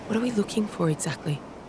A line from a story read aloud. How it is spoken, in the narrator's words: Kaya whispered